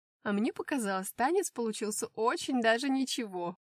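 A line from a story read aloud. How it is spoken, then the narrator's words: Giggle, sister. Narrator (Russian): хихикнула сестра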